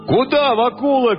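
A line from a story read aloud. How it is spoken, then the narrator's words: Shouting young men. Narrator (Russian): кричали парубки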